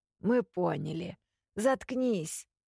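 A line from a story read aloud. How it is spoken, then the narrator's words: Hoarse grumbling, head cold. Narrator (Russian): пробурчал кто-то простуженным голосом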